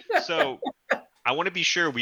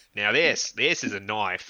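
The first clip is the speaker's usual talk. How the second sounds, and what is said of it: Put-on Australian accent. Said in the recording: “can we all try our Australian accent ... That's pretty good.”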